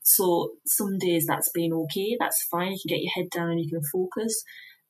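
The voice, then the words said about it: Regional accent from elsewhere. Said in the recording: “as you might have guessed from the accent, aren't from round here”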